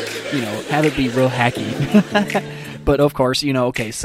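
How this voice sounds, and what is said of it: Usual voice. Nothing is said of it.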